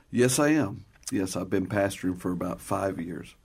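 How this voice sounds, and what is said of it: Southern American accent. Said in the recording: “his wonderful Southern accent”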